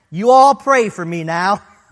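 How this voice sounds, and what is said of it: Put-on Southern accent. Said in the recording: “cries out in that southern accent”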